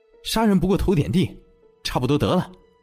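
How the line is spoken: Angry. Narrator (Chinese): 夏雷怒道

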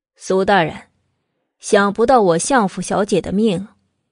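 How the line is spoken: Cold, indifferent. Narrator (Chinese): 慕容正在得知慕容子清的死讯后，没有过多的悲伤，淡淡的道

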